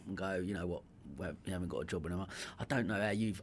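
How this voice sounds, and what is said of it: Essex accent. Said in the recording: “The Essex twang. I can't lose it.”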